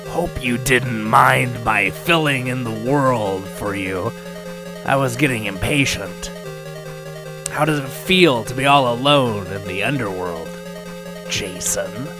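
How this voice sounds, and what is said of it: Loud, evil villain character voice. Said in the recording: “blared the Plutonium Boss's evil voice”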